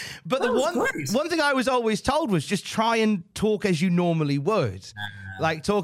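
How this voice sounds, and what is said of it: Usual voice. Nothing is said of it.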